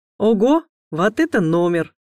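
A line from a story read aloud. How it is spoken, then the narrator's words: Loud laughing. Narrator (Russian): захохотал он и предположил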